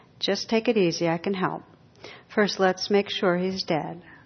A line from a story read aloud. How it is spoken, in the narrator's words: The operator, in a calm, soothing voice, says